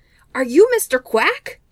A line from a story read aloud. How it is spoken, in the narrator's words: he asked eagerly